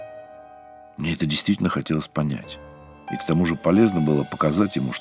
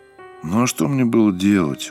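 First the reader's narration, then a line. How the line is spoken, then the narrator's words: Dejected murmur. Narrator (Russian): уныло проговорил Сергей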